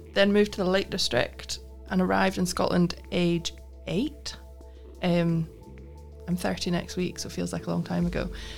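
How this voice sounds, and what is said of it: Scottish accent. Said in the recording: “I'm picking up the Scottish accent there.”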